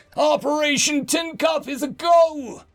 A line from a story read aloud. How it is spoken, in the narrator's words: I yelled the following at the top of my lungs